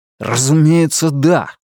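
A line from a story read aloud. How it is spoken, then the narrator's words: Angry reply. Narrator (Russian): сердито ответил он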